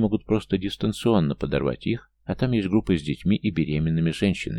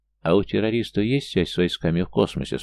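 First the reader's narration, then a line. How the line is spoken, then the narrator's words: Plain. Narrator (Russian): спросил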